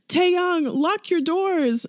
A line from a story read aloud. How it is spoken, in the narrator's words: Namjoon shouts